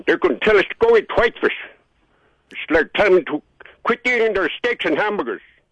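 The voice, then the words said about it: Raised, loud angry voice. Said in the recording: “Sorry if I was raising my voice”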